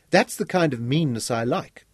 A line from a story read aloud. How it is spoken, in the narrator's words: Ruby laughed